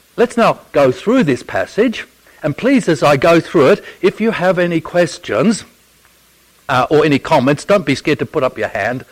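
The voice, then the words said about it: Non-American English accent. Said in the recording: “if you can't understand my accent and can't understand my English, please put up your hand and I'll try and translate it into American English ... I speak real English”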